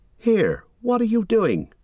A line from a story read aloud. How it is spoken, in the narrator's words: cried Sam, his suspicions coming back